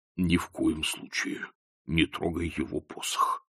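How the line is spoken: Muttered. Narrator (Russian): пробормотал он

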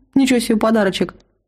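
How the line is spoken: Chuckling. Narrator (Russian): хохотнул Тимар

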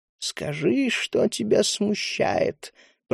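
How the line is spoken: Creaky voice. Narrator (Russian): проскрипела Лумоа

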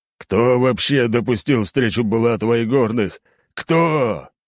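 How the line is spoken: Old man's weary howl. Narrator (Russian): взвыл старик

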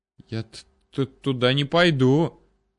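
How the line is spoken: Slight stammer. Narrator (Russian): немного заикаясь, заявил Витрицкий

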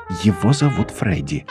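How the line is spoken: Low, earnest. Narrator (Russian): мне вполголоса, как нечто очень важное

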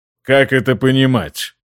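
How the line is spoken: Icy tone. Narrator (Russian): ледяным тоном произнес Генрих

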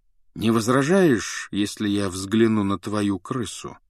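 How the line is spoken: Even-voiced question. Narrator (Russian): спросил он ровным голосом

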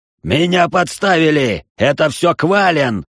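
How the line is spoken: Roaring clan leader. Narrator (Russian): взревел глава некогда популярного клана

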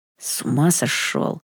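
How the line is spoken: Hiss. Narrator (Russian): прошипел Кел

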